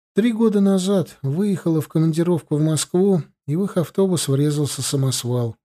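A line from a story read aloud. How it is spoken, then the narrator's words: Sad. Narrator (Russian): грустно сказала Анжела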